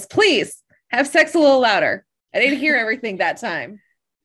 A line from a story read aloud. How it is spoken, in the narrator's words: Ethan yells